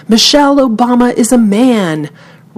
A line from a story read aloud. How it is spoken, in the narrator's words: he grabbed the microphone and shouted